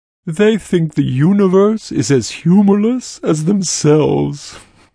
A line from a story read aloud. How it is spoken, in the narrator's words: Gruad said, chuckling